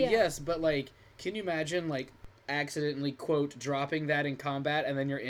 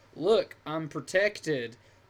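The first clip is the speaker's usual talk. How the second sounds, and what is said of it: Bad southern average-guy accent. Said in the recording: “You said that with a real bad accent. ... That's my, go-to average Joe voice ... Your average John Doe is always just, like, a southern dude.”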